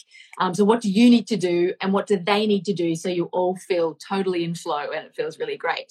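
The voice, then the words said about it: Australian accent. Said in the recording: “I'm here over here in Australia as well, in case you didn't pick the accent.”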